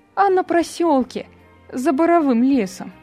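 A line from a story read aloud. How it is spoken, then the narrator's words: Joyful. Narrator (Russian): радостно ответила Нина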